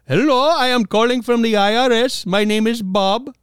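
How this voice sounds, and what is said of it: Mock Indian or Pakistani accent. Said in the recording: “I'm not meaning to mock accents at all ... somebody who's obviously either Indian or Pakistani calling you”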